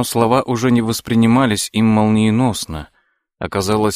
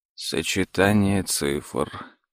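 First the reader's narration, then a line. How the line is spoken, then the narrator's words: Muttered repetition. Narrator (Russian): пробормотал за сыном Том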